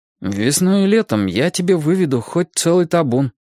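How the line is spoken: Uncertain. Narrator (Russian): неуверенно пообещал он

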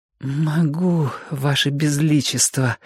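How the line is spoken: Sweet, breathy exhale. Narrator (Russian): сладостно выдохнула Юка

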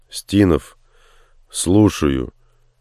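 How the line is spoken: Slightly hoarse, just woken. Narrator (Russian): чуть хрипловатым спросонья голосом произнес он

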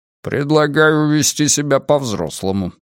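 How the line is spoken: Grumble. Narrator (Russian): проворчал Карлос

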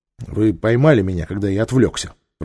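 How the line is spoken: Grumbling. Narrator (Russian): проворчал он

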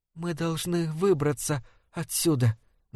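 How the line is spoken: Insistent barely audible whisper. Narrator (Russian): настаивала Дайна тихим, едва слышным шепотом

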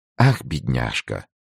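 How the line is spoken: Calm. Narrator (Russian): спокойно проговорила принцесса

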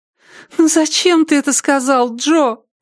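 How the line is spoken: Moaning. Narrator (Russian): простонала Триша

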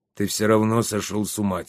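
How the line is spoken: Quiet. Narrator (Russian): тихо сказал Щавель

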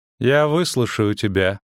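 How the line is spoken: Sighing. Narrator (Russian): вздохнула Дриада

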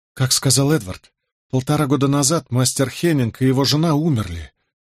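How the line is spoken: Sighing. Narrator (Russian): вздохнула Джозефина

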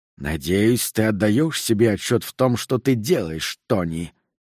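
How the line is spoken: Angry hiss, old man. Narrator (Russian): прошипел старик, лицо его побагровело

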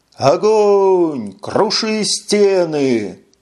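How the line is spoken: Wild ecstatic yell. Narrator (Russian): заорал в диком восторге и неистовом запале Джил Ли

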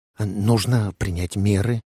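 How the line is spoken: Whisper. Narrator (Russian): прошептал Уэсли Моуч

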